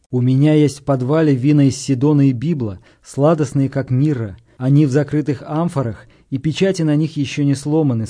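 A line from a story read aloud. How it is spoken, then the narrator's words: Plain. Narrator (Russian): сказал он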